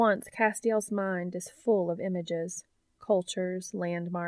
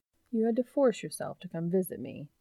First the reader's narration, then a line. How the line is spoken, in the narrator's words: he teases gently